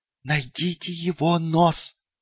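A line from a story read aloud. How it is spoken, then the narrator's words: Hiss. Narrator (Russian): прошипел он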